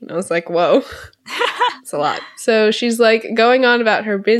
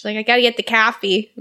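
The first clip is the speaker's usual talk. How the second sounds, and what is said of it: Thick Chicago accent. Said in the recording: “extremely thick Chicago accent”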